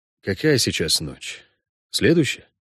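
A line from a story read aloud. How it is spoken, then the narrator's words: Quiet question. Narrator (Russian): тихо справился ведьмак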